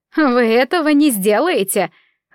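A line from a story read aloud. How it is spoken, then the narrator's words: Laughing. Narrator (Russian): рассмеялась Маргарита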